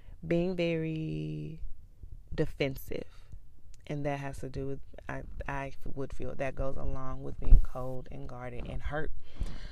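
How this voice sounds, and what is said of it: Low, quiet voice. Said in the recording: “Sorry if I'm speaking in my low voice today. I hope you can hear me.”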